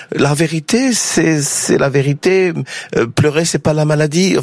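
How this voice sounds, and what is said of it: Imitated Finnish accent in French. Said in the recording (French): “l'accent finlandais de Patrick Mill ... Il le fait mieux que moi.”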